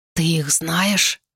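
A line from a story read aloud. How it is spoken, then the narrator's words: Whisper. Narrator (Russian): прошептал Гонь-Жу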